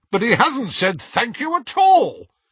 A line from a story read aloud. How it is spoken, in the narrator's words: said Hestia indignantly